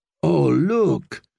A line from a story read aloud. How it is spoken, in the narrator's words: purred Lady Merryweather